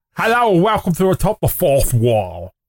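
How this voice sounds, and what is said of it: Linkara impression, cartoon duck voice. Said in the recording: “Do your best Linkara impression. ... he just sounds like a cartoon duck.”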